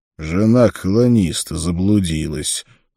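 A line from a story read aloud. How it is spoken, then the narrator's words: Grumble. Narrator (Russian): проворчал Конан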